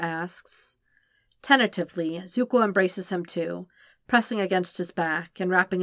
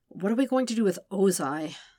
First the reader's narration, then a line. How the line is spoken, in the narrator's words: Sokka sighs